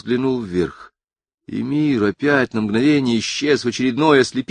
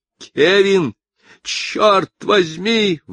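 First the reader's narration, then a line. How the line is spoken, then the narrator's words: Shouting. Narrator (Russian): выкрикнул он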